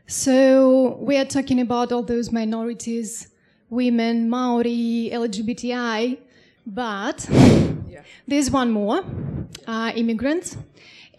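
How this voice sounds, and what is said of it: Non-native English accent. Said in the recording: “You can tell by my accent, I'm an immigrant.”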